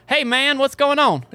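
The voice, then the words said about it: Exaggerated Southern US accent. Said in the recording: “You should have heard my accent when I was a kid ... do your impression ... I had the most southern”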